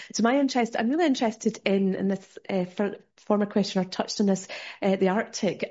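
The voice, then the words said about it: Scottish accent. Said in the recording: “you'll tell from my accent, I'm from Scotland”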